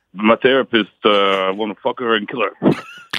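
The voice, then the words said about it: Imitates a TV character's voice. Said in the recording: “my Tony Soprano impression ... I think you nailed it”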